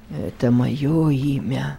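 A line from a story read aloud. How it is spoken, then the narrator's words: Weak voice. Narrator (Russian): слабым голосом произнес незнакомец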